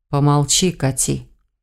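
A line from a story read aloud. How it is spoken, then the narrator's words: Whisper into ear. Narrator (Russian): Прижавшись губами к моему уху, шепнул он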